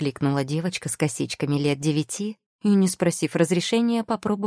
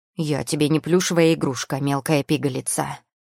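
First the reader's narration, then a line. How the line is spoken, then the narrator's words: Growl. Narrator (Russian): прорычал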